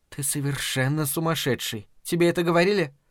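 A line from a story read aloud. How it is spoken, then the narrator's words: Whispered in ear. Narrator (Russian): поднеся губы к самому уху Чарли, она прошептала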